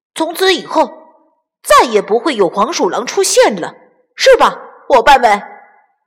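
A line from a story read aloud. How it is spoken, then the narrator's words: Concluding. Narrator (Chinese): 卡梅利多总结道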